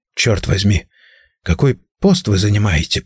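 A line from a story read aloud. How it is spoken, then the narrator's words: Whisper. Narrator (Russian): прошептал я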